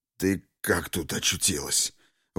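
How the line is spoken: Forced-out words. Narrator (Russian): выдавил Жадов

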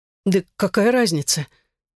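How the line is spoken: Nervous stammering. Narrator (Russian): Генри заикался от волнения

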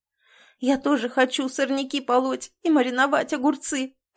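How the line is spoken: Sobbing while smiling. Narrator (Russian): всхлипываю, улыбаясь

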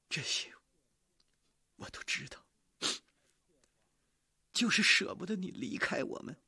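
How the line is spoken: Crying. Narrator (Chinese): 他的妈妈哭着说

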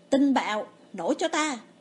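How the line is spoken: Loud powerful shout. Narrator (Vietnamese): Lâm Vân tập trung toàn bộ tinh lực trong cơ thể, hét lớn một tiếng

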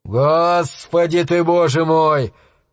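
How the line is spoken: Man's breathed exclamation. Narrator (Russian): выдохнул мужчина

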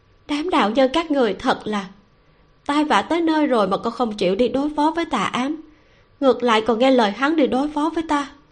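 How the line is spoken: Soft laugh. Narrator (Vietnamese): Cười khẽ ra tiếng, Lâu Tử Ngọc

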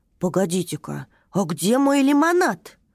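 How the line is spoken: Displeased exclamation, little dragon. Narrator (Russian): недовольно воскликнул дракоша

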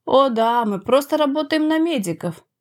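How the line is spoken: Cheerful. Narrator (Russian): весело отозвался Макс

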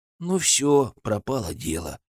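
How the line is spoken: Gloomy whisper. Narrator (Russian): уныло шепнул мне Сева

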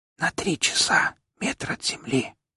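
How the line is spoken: Muffled whisper. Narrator (Russian): прошептал, прикрывая рот

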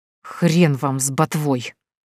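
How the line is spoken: Angry hiss. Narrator (Russian): Зло прошипела женщина

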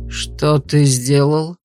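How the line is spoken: Muffled middle-aged man. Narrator (Russian): глухо спросил мужчина лет 40 у Вьера

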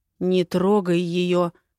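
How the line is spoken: Growling. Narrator (Russian): прорычал он

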